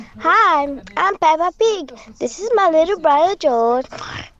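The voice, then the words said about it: Cartoon pig character voice. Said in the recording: “I'm gonna do a Peppa Pig voice.”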